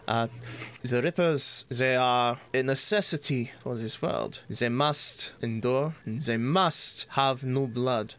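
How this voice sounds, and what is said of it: Imperfect put-on accent. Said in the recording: “I will get this accent eventually.”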